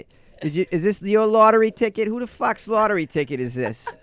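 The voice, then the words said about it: Put-on tough Boston accent. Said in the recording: “give me the Boston ... It does sound tough. Not quite as tough as New York, though”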